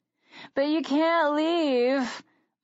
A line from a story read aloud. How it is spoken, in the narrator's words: my mother begged them